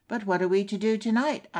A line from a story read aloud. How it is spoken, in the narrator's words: exclaimed